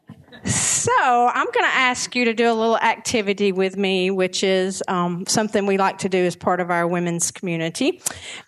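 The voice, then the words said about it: Speaks with a noticeable accent. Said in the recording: “If you can't tell from my accent.”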